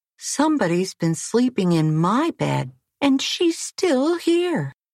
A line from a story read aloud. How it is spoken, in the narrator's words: Baby Bear squealed